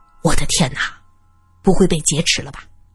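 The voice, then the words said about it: Quiet, hushed speaking. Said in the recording (Chinese): “小声的说着”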